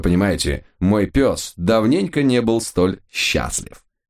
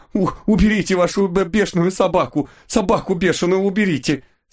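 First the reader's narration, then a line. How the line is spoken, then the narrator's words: Groaning. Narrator (Russian): Стонал мужик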